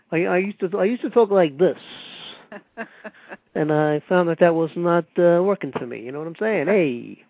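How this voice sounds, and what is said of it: Put-on New York accent. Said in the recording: “You definitely have a distinctive New York sound... you don't have a New York accent... But I can still put it on”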